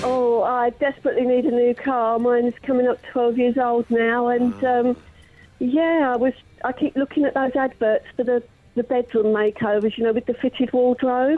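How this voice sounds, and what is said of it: Hoarse, cold-affected voice. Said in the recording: “I'm losing my voice. I've got a cold. ... got a cold.”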